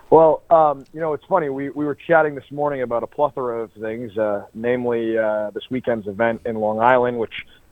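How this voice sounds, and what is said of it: Boston accent. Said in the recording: “you still have a Boston accent ... You absolutely have an accent.”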